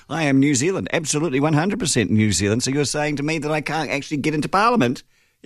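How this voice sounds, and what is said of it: New Zealand accent. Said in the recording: “if you can't tell, I've got a Kiwi accent.”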